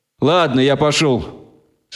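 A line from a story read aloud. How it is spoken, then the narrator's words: Plain. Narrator (Russian): сказал Прусак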